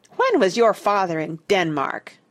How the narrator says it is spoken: Douglas demanded hotly

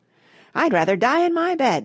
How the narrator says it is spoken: shouted Grandma Josephine

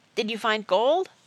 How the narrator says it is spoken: Sarah blurted out

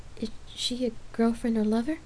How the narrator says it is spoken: Lark asked nervously

